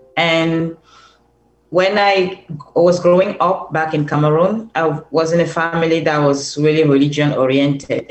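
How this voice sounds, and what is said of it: Cameroonian accent. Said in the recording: “I'm originally from Cameroon ... can hear that from my beautiful accent.”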